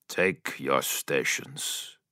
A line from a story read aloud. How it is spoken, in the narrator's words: he said grimly